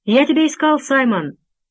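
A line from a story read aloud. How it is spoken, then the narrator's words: Shouted from afar. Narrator (Russian): крикнул человек с мостика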